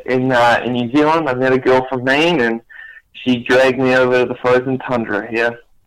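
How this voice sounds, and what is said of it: New Zealand accent. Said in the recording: “it doesn't sound like you're from Maine ... I'm from originally South Africa, and my accent that you can hear, I'm from New Zealand.”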